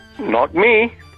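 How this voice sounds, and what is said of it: Put-on disguised voice. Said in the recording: “put on a different voice”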